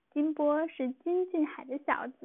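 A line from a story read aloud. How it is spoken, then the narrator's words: Chuckling, hurried. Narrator (Chinese): 润叶嘿嘿笑了，赶忙对二爸说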